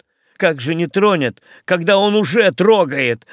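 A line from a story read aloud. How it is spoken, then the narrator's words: Boy yelling. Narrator (Russian): вопил мальчишка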